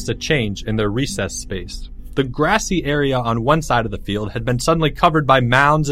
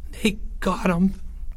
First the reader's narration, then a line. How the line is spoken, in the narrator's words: Porge gasped for breath